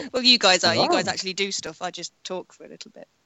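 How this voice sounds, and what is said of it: Female voice, British accent. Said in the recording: “I talk in a female and British accent ... I love your little British accent.”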